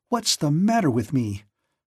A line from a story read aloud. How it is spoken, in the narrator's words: she suddenly exclaimed